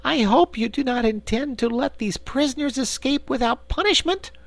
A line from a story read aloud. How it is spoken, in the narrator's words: exclaimed Corporal Waddle in protest